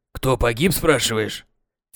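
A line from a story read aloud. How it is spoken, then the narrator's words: Hoarse, annoyed voice. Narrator (Russian): В сиплом Митькином голосе слышалась досада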